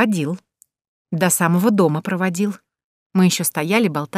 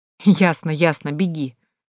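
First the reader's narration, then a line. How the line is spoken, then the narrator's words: Laughing. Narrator (Russian): рассмеялась я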